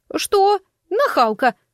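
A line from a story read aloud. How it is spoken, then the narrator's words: Indignant shout. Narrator (Russian): возмущенно выкрикнула она мне вслед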